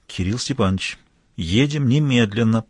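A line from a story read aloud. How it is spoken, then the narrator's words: Near-whisper into ear. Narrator (Russian): почти шепотом сообщил ему адмирал на ухо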